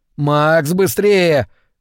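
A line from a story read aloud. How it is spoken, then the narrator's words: Shouting over engines. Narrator (Russian): крикнул он в последний раз, пытаясь перекричать звук приближающихся мотоциклов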